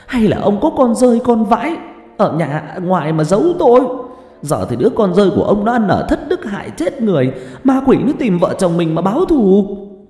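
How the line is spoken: Hissing. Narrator (Vietnamese): bà phân vân rồi túm chặt tay ông Hoài mà rít lên

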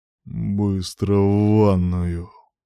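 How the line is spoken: Impatient, threatening growl. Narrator (Russian): прорычал нетерпеливо, даже угрожающе

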